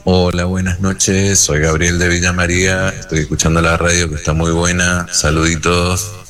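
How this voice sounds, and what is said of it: Deep radio announcer voice. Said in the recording (Spanish): “tenés una voz de locutor tremendo, fenomenal”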